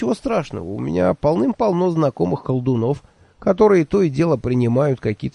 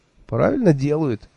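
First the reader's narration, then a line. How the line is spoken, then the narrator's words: Cheerful. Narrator (Russian): весело сказал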